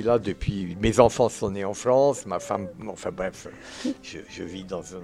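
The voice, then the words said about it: Slight Swiss accent in French. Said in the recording (French): “un accent, un petit accent ah suisse ... l'accent, il est aussi suisse”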